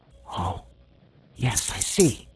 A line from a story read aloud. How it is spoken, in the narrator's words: whispered Diamond